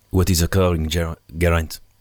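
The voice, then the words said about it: Put-on French-speaking Belgian accent. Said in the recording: “do the what's occurring in the accent of that day's stage winner ... He's from the French speaking part of Belgium ... Oh, good effort”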